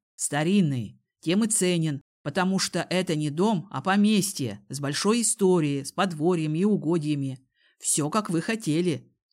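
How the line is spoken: Plain. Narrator (Russian): сказал кузен

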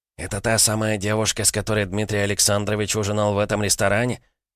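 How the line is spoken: Loud whisper. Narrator (Russian): громким шепотом спросил один из журналистов у Гомельского

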